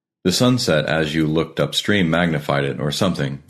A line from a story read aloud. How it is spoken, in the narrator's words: I replied